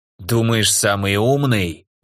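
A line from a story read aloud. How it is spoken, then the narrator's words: Hoarse angry growl. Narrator (Russian): рыкнул хрипловатый злой голос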